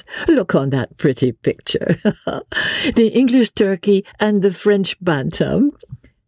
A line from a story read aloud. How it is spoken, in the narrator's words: said Marguerite, with one of her merry infectious laughs